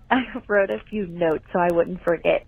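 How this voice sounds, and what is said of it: Noticeable regional accent. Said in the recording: “That accent.”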